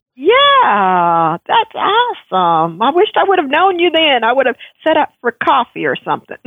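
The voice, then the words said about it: Texan American accent. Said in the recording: “I love your accent. Tell me, whereabouts are you from? ... Oh, I'm in Dallas, Texas.”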